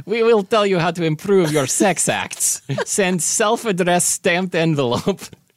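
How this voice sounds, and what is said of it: Put-on Russian accent. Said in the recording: “you're doing the Russian accent”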